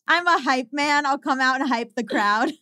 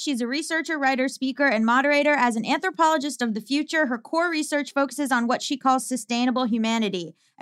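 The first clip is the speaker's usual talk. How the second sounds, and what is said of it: Very fast announcer-style delivery. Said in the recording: “I'm so impressed with how fast you talk. ... almost like announcer, like baseball announcer voice.”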